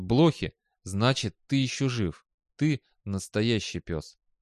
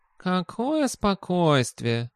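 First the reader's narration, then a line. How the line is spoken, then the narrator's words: Cat's snort. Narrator (Russian): хмыкнул кот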